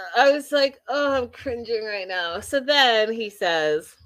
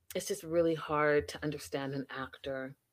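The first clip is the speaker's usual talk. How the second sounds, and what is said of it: Dead-serious theatrical acting voice. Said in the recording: “let me do it in my acting voice ... and dead serious”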